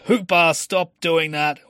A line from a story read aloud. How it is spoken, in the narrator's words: yelled out